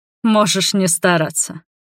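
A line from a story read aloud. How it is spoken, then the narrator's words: Scoffing snort. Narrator (Russian): хмыкнул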